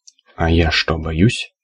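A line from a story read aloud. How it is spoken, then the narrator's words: Very quiet, hesitant question. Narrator (Russian): Спросила, наконец, совсем тихо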